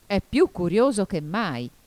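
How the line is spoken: Griffin exclaiming. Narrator (Italian): esclamò il grifone

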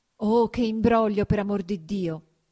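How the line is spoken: Exclaimed. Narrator (Italian): esclamava Agnese

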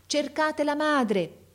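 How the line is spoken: Man shouting to crowd. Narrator (Italian): gridava il signore alla folla

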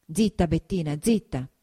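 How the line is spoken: Plain. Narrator (Italian): disse Renzo

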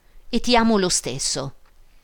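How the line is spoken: Shouted. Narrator (Italian): avrebbe gridato

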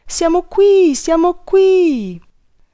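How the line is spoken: Children shouting together, behind door. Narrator (Italian): i ragazzi che erano dietro l'uscio gridarono tutti insieme

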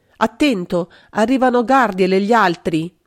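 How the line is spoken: Shouted. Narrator (Italian): Magda aveva gridato

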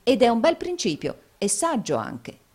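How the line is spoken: Plain. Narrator (Italian): disse Nicola

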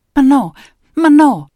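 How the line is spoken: Stammering. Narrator (Italian): balbettava

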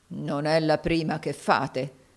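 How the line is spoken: Muttering. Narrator (Italian): borbottò Locker

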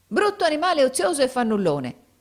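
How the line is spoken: Angry exclamation. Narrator (Italian): esclamò la donna pestando i piedi

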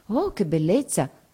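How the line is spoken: Group murmuring. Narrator (Italian): mormorano tutti

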